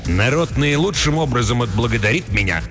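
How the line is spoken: Sharp. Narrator (Russian): резко сказал я

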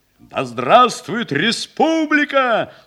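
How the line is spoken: Crowd shouting. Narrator (Russian): снова крикнули гренадеры

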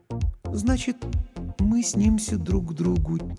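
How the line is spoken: Quiet repetition. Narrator (Russian): тихо повторила Лана

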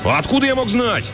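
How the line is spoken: Snapping retort. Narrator (Russian): огрызнулся Джакс

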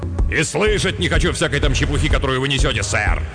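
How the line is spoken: Irritated snapping retort. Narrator (Russian): В раздражении огрызнулся Хартплеер, как всегда досадуя на болтовню людей о цвете, реальном только в их воображении

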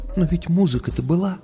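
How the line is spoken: Quiet question. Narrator (Russian): спросила она тихо

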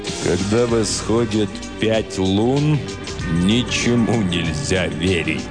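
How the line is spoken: Grave, sepulchral voice. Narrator (Russian): сказал суперинтендант Флинт за могильным голосом

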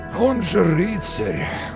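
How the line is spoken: Sighed. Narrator (Russian): очень натурально вздохнул Мерлин

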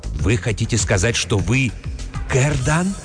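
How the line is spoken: Whisper. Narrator (Russian): шепотом спросил трактирщик

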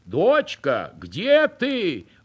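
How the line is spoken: Mother calling out. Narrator (Russian): кричала мать

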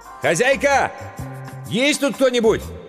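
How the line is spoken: Shouting. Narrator (Russian): Иван прокричал

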